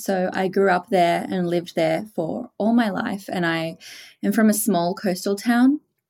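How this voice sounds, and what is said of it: Australian accent. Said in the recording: “I am Australian, as you can probably tell from my accent.”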